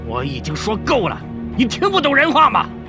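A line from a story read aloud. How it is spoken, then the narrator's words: Roaring. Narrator (Chinese): 他吼道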